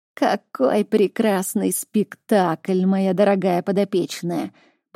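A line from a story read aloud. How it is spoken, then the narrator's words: Creaky voice. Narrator (Russian): проскрипел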